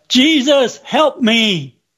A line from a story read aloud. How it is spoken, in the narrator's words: out of more great urgency in silent prayer, I cried